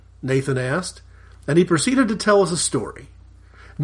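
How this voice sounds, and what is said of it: Usual voice. Nothing is said of it.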